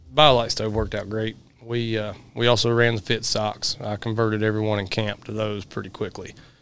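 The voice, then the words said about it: Slightly raspy, worn voice. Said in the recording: “excuse my voice, I've been working dogs for a week, so I'm a little bit raspy ... I've not got much of a voice yelling at dogs”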